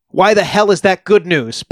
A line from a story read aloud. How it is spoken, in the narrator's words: Paez shouted angrily at Nikolic